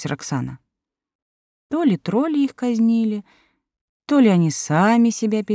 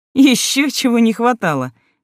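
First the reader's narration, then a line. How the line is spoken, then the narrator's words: Exclaimed. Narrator (Russian): воскликнул Сева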